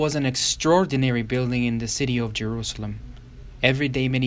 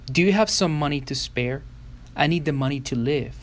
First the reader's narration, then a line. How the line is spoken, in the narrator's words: begged